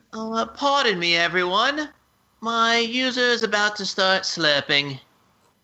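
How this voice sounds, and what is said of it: Generic tawdry British accent. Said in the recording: “It's just generic ... British person ... Kind of tawdry British person. ... Not Dench.”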